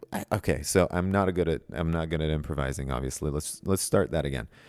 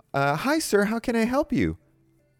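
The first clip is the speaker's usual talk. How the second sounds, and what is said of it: Polite customer service voice. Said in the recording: “a professional voice, like a customer service voice”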